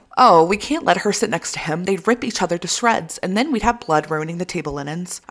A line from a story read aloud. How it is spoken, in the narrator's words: Ianthe exclaimed